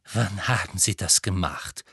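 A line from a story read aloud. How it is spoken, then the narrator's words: Slightly trembling question. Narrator (German): fragte sie mit leicht zitternder Stimme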